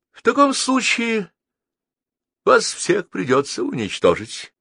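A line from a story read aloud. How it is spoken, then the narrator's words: Sad, smiling. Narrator (Russian): печально улыбнулся Мамис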